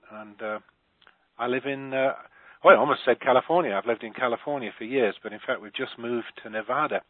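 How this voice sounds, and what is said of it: British accent. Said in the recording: “I'm British, you can tell by my accent”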